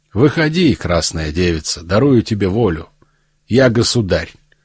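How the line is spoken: Gentle, affectionate. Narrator (Russian): сказал ей ласково

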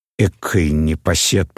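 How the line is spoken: Old woman grumbling. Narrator (Russian): проворчала старуха

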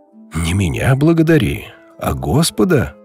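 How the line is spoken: Joyful reply. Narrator (Russian): радостно ответил отец Савва

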